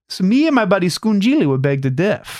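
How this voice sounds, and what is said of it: Put-on Italian-American accent. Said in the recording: “that's a little American Italian ... I can't even understand your accent half of the time”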